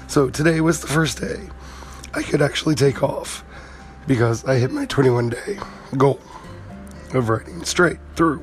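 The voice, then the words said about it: Hoarse, nearly lost voice. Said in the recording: “My voice is still gone... my voice is still completely gone. Still have a little bit of cough”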